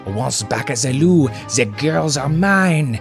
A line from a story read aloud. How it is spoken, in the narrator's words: exclaims